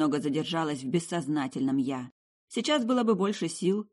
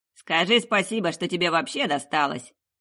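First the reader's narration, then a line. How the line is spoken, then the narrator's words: Snort. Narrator (Russian): Джокани хмыкнул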